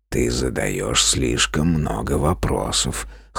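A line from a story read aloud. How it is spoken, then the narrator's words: Gloomy grumble. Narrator (Russian): хмуро буркнул Джин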